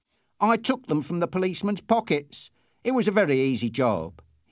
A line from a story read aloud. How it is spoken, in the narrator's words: said triumphantly